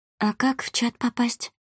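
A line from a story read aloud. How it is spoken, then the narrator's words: Very quiet girl. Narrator (Russian): Девушка старалась говорить очень тихо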